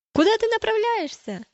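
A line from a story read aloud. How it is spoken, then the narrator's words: Shouted. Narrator (Russian): закричали они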